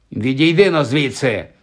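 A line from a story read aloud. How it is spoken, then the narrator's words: Barked. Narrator (Ukrainian): гаркнув він Ронові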